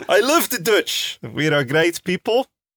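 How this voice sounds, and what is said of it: Put-on Dutch accent. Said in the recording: “I cannot do a good Dutch accent, but this I enjoy a great deal.”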